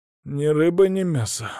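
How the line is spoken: Exhaled. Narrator (Russian): выдохнул я

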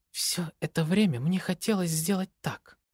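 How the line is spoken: Quiet. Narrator (Russian): негромко произносит

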